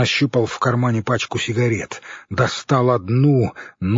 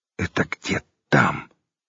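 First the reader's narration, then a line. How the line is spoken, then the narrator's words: Whisper. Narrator (Russian): Хорь снова перешел на шепот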